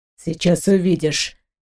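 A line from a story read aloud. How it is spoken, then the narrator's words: Muffled voice. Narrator (Russian): глухо проговорил Дмитрий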